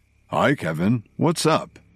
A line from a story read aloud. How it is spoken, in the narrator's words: Cook answered in his deep voice